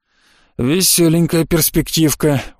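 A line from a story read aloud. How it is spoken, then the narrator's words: Gloomy grunt. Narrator (Russian): угрюмо хмыкнул баламут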